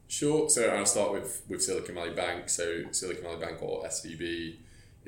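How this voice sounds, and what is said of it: Slightly hoarse low baritone voice. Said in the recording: “You said you were feeling a bit hoarse... A little bit, yeah... I'm naturally kind of a baritone voice anyway... a low voice”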